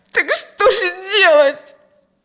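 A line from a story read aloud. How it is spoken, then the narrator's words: Desperate sob. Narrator (Russian): Отчаянно всхлипнула Алевтина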